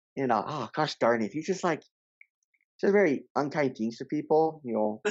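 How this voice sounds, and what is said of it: Put-on American accent. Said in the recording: “I gotta be an American ... I do a better accent”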